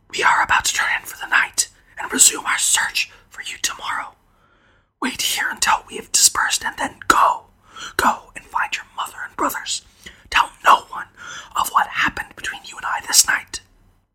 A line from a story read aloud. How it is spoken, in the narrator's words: Sorhan, this time whispering